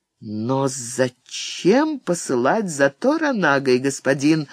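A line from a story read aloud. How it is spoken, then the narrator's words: Plain. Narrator (Russian): спросила она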